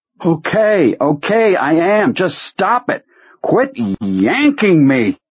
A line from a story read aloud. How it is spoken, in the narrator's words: From a great distance he heard himself shouting